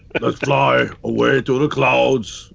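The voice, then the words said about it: Arnold Schwarzenegger impression. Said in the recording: “Wait, now I'm Arnold.”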